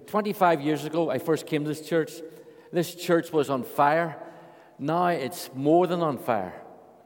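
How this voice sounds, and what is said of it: Irish accent. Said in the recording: “my Irish accent.”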